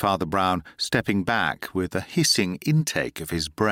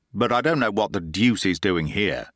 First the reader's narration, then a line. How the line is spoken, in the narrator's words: growled Harris